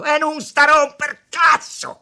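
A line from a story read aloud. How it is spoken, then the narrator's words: Shouted. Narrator (Italian): le gridò Tommaso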